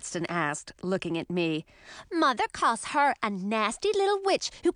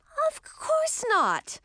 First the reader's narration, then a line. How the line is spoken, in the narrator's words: I said indignantly